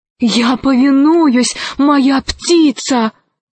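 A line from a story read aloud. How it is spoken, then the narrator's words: Exclaimed. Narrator (Russian): воскликнул Арсеки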